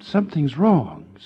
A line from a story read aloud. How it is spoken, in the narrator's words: said Arthur in a whisper